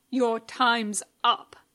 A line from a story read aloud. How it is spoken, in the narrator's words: the guard snaps